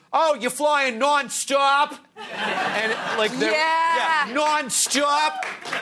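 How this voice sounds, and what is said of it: Boston accent with slight lisp. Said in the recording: “that's a Boston accent ... it's almost like a little bit of a lisp to it.”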